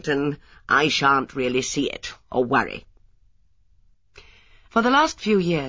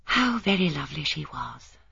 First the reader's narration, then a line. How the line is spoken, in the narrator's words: said Miss Marple with a sigh